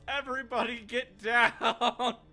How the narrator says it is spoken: Ivan just yells

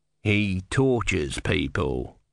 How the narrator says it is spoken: said coldly

